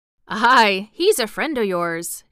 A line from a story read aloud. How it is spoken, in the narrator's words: chuckled Dickon